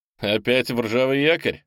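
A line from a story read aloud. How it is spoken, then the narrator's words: Laughing. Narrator (Russian): засмеялся Тимк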